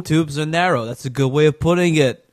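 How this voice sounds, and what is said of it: Phony Staten Island guy voice. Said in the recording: “Don't do this voice. This is phony. ... I'm a Staten Island guy.”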